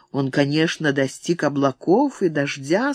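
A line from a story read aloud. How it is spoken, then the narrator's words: Plain, boy. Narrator (Russian): сказал мальчик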